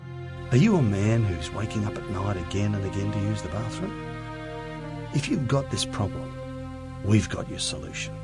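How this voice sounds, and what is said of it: Australian accent. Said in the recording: “it's an Australian accent”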